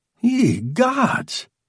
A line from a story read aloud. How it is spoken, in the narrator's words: cried his censor